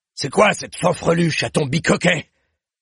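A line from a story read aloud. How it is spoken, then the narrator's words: Growled. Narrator (French): gronda-t-il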